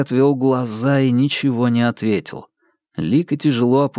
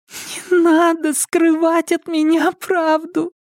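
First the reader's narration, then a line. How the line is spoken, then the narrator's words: Muffled moan. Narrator (Russian): глухо простонала она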